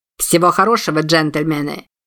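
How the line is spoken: Commanding bark. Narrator (Russian): Снова командным тоном рявкнул Билли

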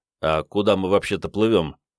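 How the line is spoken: Skeptical grunt. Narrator (Russian): Сергеич хмыкнул

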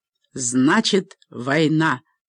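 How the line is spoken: Growled. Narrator (Russian): прорычал Лаэрт Маккей

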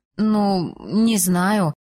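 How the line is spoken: Mumbled. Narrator (Russian): промямлила я

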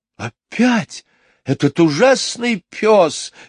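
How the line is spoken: Exclaiming. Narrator (Russian): воскликнула мисс Ларк

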